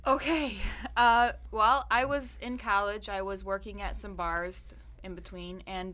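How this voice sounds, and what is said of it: Midwestern accent. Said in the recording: “I love the Midwestern accent. ... I love when beautiful women say college.”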